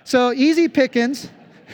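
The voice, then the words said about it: Put-on Southern US accent. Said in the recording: “that's how I would say easy pickings ... From the South ... I just love that Southern accent.”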